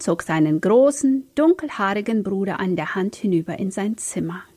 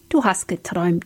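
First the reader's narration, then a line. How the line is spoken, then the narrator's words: Gentle. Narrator (German): sagte Philipp sanft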